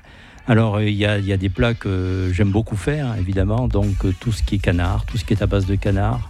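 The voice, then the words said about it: Southwest French regional accent. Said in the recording (French): “vu mon accent, vous avez entendu, c'est plutôt du côté du sud-ouest de la France”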